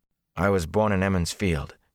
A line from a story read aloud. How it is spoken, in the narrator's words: he said stiffly